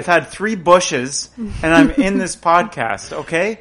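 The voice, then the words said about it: Loud, near-yelling speech. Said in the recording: “could you bring your voice volume down a notch? ... You don't need to yell.”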